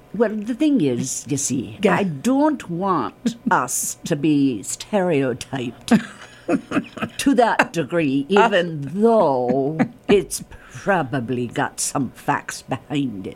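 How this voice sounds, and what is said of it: Irish accent. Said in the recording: “I was waiting for your Irish accent. ... I could listen to that all day. I can't do that accent. It's so good.”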